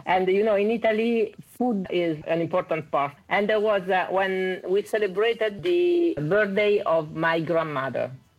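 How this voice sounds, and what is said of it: Italian accent. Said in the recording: “I'm Italian, as you can see from my accent.”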